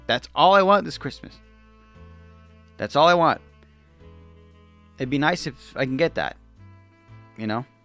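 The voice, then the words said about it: Emotional, choked-up voice. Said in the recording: “getting emotional.”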